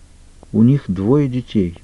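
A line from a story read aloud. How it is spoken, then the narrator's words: Quiet. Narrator (Russian): тихо произнесла она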